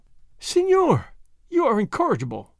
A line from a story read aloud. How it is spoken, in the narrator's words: the señorita Lolita exclaimed, laughing